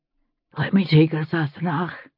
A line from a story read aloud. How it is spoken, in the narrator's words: Jamie whispered